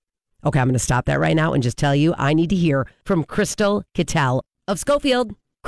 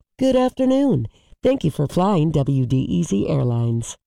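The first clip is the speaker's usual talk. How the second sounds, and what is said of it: Flight attendant announcement voice. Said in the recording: “Should I sound like a stewardess?”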